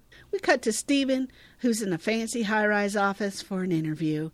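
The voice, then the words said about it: Accent, possibly Southern-sounding. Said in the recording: “your accent is bleeding into your outline. And it is adorable. ... I started talking in some kind of an accent, and he's like, are you from the South?”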